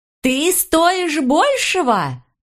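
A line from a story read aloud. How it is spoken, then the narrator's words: Old woman shrieking into phone. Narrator (Russian): завопила старуха в трубку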